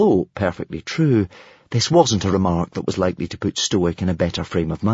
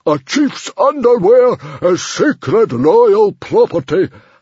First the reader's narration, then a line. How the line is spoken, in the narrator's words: howled Stoic the Vast